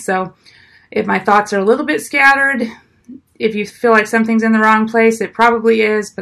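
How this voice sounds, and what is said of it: Hoarse, fading voice from illness. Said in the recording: “I'm a little bit sick, so I'm losing my voice a little bit”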